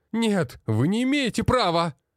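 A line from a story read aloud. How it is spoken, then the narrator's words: Wailing. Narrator (Russian): вопил тот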